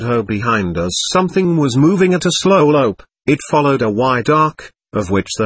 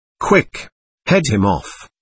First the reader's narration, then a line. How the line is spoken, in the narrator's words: whispered Taverner